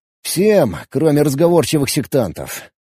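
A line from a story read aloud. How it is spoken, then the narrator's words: Tired reply. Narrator (Russian): устало ответил я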